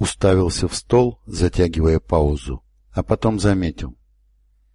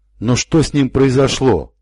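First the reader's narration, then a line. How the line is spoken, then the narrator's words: Exclaimed. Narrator (Russian): воскликнул Гриссел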